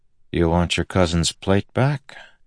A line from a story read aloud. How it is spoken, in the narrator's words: Adolin asked quietly